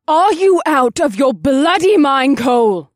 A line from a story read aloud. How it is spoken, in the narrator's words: Vanessa snapped, and venom oozed from her lips